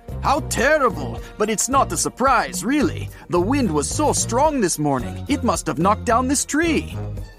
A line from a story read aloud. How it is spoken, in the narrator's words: He exclaimed